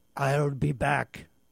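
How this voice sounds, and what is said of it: Weak Arnold Schwarzenegger impression. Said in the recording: “maybe that wasn't a great imitation of Arnold, but I did my best”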